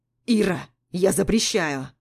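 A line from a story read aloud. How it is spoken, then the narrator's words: Angry barking. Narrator (Russian): Рявкает зло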